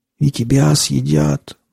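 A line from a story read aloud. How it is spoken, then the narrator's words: Wheezed. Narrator (Russian): просипел он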